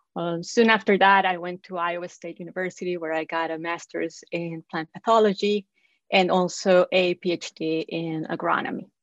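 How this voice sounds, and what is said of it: Costa Rican Spanish-accented English. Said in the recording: “I am originally from Costa Rica, in case you were wondering about the accent.”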